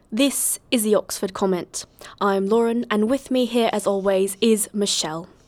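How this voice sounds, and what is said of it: Fake British accent. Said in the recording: “your British accent is totally fake”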